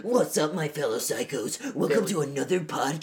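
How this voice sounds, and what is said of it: Deep gravelly Batman-style voice. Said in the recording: “You sound like a Batman.”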